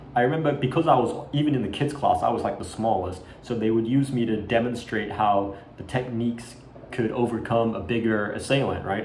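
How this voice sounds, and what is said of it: Mixed American and Australian accent. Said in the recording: “my accent change. It might go from like kind of American to like Australian and to like something weird in between”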